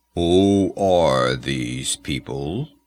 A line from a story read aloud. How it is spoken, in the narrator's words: asked Olmec, and his voice was like the low, deep rumbling of a distant bull